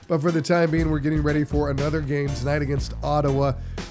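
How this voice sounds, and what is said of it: Weak, recovering voice. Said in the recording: “As you can hear, my voice is slowly but surely coming back, and soon I'll be back to being the boisterous”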